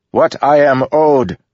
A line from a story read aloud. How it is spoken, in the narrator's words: the assassin shouted